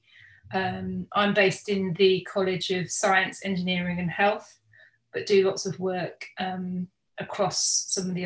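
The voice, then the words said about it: Non-Australian English accent. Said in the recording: “my accent will immediately give away the fact that I'm not actually native Australian”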